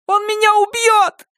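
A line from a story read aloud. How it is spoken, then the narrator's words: Shrill shriek. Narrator (Russian): взвизгнула Амелия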